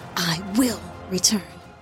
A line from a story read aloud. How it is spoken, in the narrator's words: he whispered